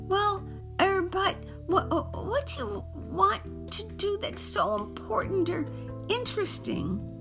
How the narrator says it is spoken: Johnny pleaded

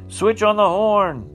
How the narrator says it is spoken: cried

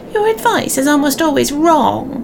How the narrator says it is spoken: sneered the short old man

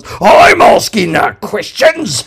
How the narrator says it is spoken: howled Number Two, his body quaking with apoplectic fury

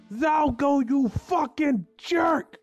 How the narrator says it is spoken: Ben yelled

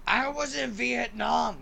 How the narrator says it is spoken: he just shouts

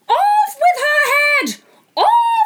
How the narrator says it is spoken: The Queen turned crimson with fury, screamed

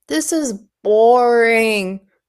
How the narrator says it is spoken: Dudley moaned

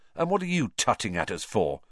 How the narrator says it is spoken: said Ron irritably

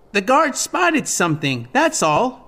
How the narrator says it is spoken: Navi shouted

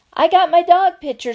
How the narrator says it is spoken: screamed Sweetie Pie

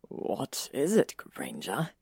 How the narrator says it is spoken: he asked, his voice hoarse with sleep

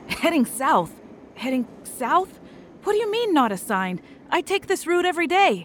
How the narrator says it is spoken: said Kyle, pacing around frantically

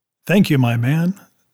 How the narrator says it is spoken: says Captain Smollett

